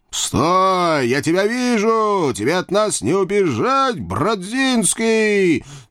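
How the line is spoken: Triumphant shout from behind. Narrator (Russian): Торжествующе крикнули мне в спину

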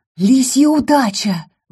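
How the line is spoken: Exclaiming. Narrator (Russian): воскликнула я

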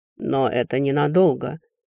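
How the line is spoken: Gloomy, curt. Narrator (Russian): бросил некромант мрачно

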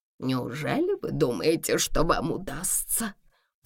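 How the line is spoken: Whisper. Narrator (Russian): прошептала она

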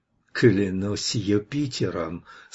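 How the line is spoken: Muttered through gritted teeth. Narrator (Russian): сквозь зубы пробормотал он

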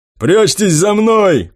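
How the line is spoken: Shout. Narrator (Russian): крикнул какой-то ветеран

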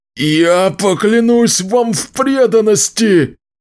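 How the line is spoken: Shouting witcher. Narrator (Russian): прокричал ведьмак

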